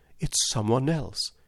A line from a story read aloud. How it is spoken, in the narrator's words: he muttered